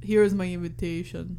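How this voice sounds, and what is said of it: Imitates another person's voice. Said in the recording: “That was my Arnold impression. ... it was pretty decent.”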